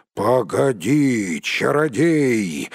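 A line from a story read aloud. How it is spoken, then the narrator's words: Roar. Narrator (Russian): взревел Бьорн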